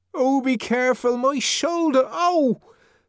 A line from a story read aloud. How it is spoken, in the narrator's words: Linda cried out